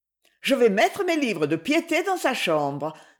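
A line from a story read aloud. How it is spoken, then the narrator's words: Quick reply. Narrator (French): répondit vivement Madame de Rilly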